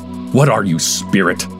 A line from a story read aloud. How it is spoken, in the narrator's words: he cried